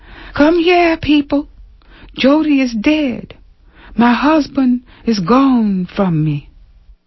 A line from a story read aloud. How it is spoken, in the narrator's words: cried